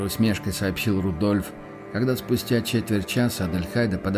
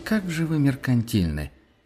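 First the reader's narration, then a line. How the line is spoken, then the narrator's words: Theatrical sigh. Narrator (Russian): показательно вздохнула Адельхайда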